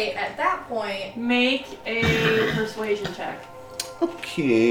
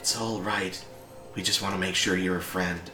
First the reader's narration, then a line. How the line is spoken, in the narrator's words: have a whisper that says